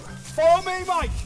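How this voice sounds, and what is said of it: Shouting. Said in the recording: “Stop shouting in my ear.”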